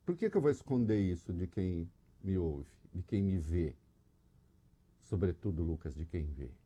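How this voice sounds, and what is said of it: Brazilian caipira rural accent. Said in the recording (Portuguese): “Reconheci pelo sotaque caipira.”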